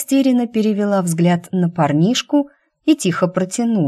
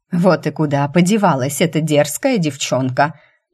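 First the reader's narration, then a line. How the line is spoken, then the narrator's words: Muffled grumbling behind door. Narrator (Russian): Донеслось из-за двери ее ворчание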